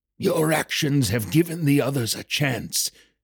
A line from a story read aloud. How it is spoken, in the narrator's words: Silmar rasped out